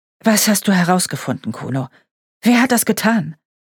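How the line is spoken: Sighing. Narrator (German): Der Kommissar seufzte

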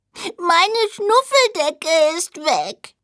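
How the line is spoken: Small creature sobbing. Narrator (German): Der kleine Siebenschläfer schluchzte

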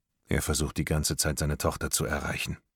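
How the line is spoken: Quiet. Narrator (German): sagt Morton leise

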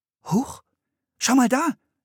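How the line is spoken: Called out. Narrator (German): rief Anne

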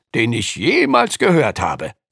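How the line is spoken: Calling out. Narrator (German): rief Lukas

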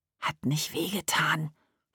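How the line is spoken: Whisper. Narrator (German): flüsterte er hinterher Emma zu

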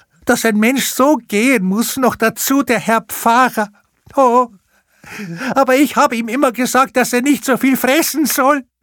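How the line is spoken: Lamenting. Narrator (German): jammerte sie

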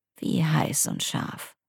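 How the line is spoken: Rough-voiced question. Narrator (German): fragte mit rauer Stimme

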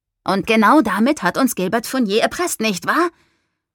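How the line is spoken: Sharp question. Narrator (German): fragte Noah scharf

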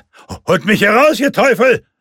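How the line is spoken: Desperate shout for help. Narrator (German): schrie Van Leiden in der Hoffnung, dass ihn irgendjemand hörte

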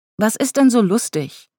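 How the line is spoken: Stern question. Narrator (German): wollte Ella streng wissen

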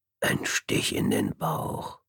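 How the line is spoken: Whisper. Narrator (German): flüsterte

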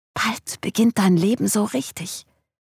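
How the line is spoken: Seeming whisper. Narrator (German): schienen zuzuflüstern

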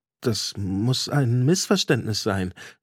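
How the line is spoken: Stammering. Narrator (German): stammelte ich

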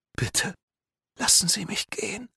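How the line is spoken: Whisper. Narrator (German): flüsterte

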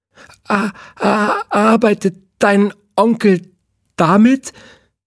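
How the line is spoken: Stammering. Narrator (German): stotterte

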